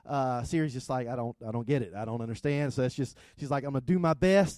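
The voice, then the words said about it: Thick South Georgia accent. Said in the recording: “I have a thick South Georgia accent.”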